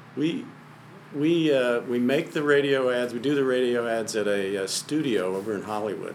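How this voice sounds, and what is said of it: Polished radio voice. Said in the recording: “You have a great radio voice.”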